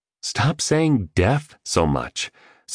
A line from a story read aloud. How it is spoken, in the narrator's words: said the entrepreneur